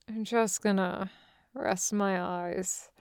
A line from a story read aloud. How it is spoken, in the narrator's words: mumbles, brain already slipping into the pleasant space between drowsy and asleep